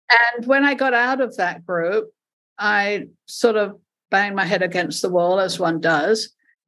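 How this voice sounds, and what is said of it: Mixed accent from several continents. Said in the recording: “my accent, which is just a mishmash now of several continents”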